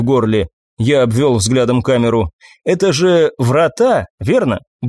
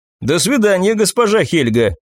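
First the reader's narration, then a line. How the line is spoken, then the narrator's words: Shouting after someone. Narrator (Russian): крикнул вслед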